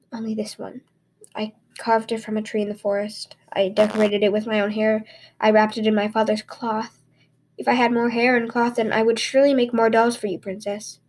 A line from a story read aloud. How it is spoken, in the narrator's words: Takatuliang whispered